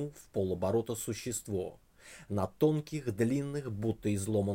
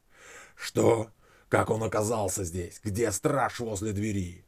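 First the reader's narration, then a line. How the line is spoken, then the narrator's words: Furious growl. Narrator (Russian): Прорычал второй голос с еще большей яростью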